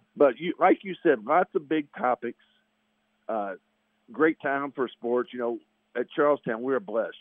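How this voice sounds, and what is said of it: Voice roughened and unwell-sounding. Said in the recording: “the allergies got the best of me. So excuse my voice”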